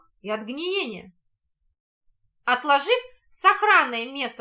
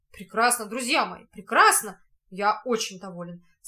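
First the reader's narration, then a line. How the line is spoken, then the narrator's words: Plain. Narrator (Russian): сказал Шарль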